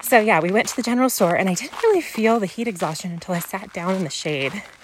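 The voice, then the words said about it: Out of breath, panting speech. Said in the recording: “Can you guys tell I'm out of breath? I'm like walking up.”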